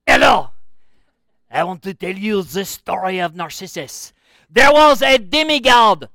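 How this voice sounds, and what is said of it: Exaggerated fake French accent. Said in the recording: “a ridiculous French accent”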